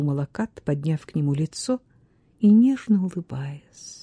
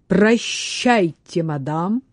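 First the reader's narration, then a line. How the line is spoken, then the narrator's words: Loud. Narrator (Russian): сказал он громко, чтобы все слышали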